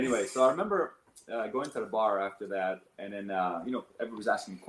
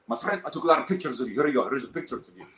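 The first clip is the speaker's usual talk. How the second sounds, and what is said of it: Imitated Arabic accent. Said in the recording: “he's an Arab, so he's his accent”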